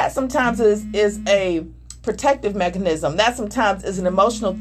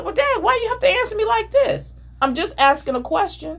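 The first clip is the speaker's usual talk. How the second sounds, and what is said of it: Defensive voice rising in pitch. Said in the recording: “that voice or that diction that comes up is... you see how my voice went up?”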